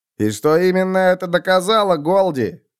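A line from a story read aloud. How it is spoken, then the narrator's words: Distant shout. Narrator (Russian): крикнул другой голос с задних рядов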